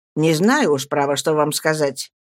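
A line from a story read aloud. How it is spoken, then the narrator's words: Indifferent, calm. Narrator (Russian): ответил Стирфорд равнодушно спокойным тоном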